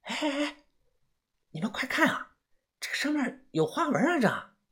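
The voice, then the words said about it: Quiet, hushed speaking voice. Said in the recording (Chinese): “小声的说”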